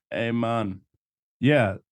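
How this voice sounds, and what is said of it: Put-on Jamaican accent. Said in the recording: “That was a good Jamaican accent.”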